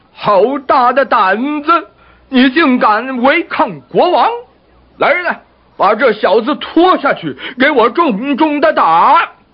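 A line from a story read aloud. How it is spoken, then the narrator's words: Sudden angry roar. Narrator (Chinese): 国王一听，马上吼叫起来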